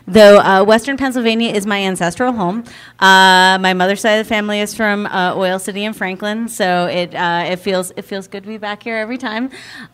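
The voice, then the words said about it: Southern US accent. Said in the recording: “I know you guys can tell this from my accent, but I'm from South Carolina ... all of those other southern things”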